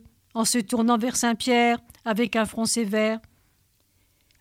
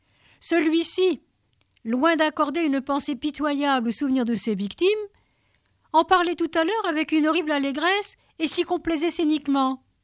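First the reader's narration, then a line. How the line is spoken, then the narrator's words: Exclaiming. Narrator (French): s'écria Saint-Pierre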